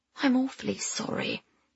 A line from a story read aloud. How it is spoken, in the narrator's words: Pamela whispered